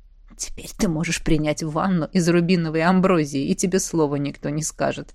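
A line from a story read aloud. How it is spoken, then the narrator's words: Snide whisper. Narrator (Russian): шепнул ехидно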